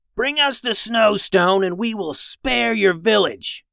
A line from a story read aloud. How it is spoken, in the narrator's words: yelled